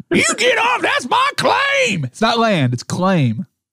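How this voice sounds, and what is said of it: Old prospector miner's voice. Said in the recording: “a miner's accent ... I'm the old prospector ... not quite the Yosemite Sam”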